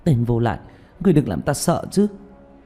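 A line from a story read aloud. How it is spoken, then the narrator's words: Trembling, frightened. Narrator (Vietnamese): Tạ Vũ Tình run rẩy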